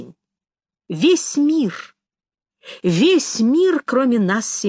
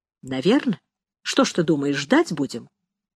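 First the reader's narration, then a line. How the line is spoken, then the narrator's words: Quiet reply. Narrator (Russian): негромко ответил Рома Каштан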